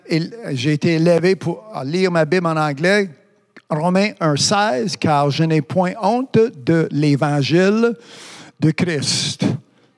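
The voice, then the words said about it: English-speaker's accent in French. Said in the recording (French): “en étant anglophone, tu vois, vous entendez déjà l'accent.”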